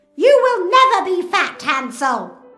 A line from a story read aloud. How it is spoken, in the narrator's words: she shouts